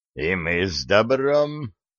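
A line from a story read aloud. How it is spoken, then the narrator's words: Hoarse men, almost joyful. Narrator (Russian): почти радостно откликнулись хриплые мужики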